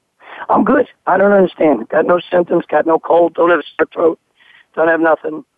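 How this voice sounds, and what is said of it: Hoarse, croaky voice. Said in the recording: “who's got a little laryngitis ... I've had this laryngitis now for like 2.5-3 weeks”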